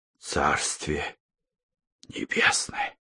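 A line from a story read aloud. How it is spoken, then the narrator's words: Strained. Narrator (Russian): выдавил он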